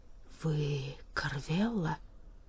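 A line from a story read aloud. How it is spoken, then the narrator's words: Mumble. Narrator (Russian): пробормотал Эльк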